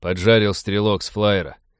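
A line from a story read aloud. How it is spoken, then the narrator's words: Weary report. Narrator (Russian): устало сообщил один из пиратов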